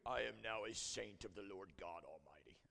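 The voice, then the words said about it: Deep English accent. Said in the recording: “they always have a deep English accent”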